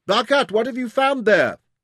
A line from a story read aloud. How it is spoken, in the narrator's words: Jim yelled across